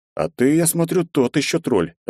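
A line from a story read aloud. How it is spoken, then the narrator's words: Laughing. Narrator (Russian): рассмеявшись, произнес я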